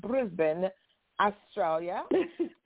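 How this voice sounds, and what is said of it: Put-on accent. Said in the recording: “Let me use my accent.”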